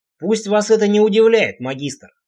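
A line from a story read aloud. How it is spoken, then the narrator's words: Plain. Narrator (Russian): сказал Сигур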